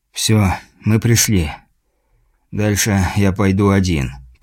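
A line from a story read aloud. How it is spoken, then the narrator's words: Muffled mutter. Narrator (Russian): пробормотал через респиратор наемник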